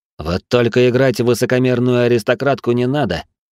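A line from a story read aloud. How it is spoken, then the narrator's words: Wry snort, slightly stung. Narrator (Russian): хмыкнул я, хотя ее обращение слегка задело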